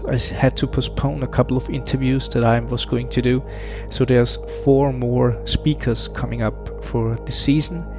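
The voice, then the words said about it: Rusty voice from a cold. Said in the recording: “I had to battle a cold. You probably still can hear it, my voice is still a bit rusty and not on top”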